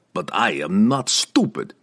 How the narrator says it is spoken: Pook chuckled

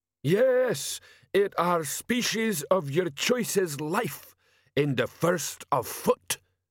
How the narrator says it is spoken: shouted Sergeant Atritus

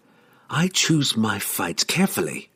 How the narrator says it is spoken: she hissed

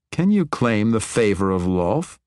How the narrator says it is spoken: He laughed, and it sounded very much like a mocking snort

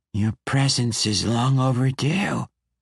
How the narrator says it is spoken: the infant said in a gurgling, watery voice

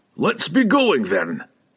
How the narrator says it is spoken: he roared in his familiar voice of confidence

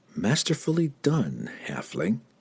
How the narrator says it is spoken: whispered into the night wind

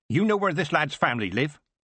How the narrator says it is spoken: Granny said sharply

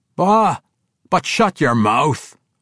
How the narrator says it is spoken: roared a familiar voice from behind

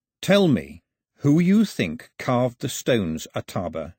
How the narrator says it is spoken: he said, keeping his voice calm

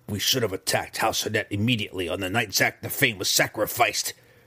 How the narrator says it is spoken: she dared to grumble

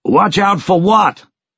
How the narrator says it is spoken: He yelled back

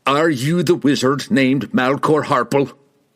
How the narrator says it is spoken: he demanded, his voice hinting at explosive anger

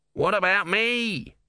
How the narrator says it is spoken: whined Om

